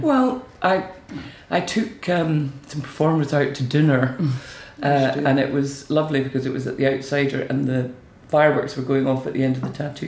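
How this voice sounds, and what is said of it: Tired voice, starting to go. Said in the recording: “I'm a wee bit tired. I think my voice is going now.”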